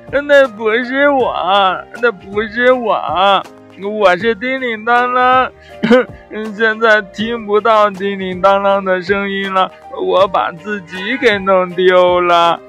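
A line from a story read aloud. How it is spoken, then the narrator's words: Loud crying shout. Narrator (Chinese): 一边哭一边大声地喊着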